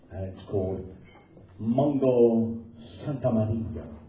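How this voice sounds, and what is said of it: Put-on accent on Spanish name. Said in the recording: “Did you like my accent?”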